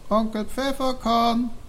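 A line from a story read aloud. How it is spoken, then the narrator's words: Calling out. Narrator (German): rief er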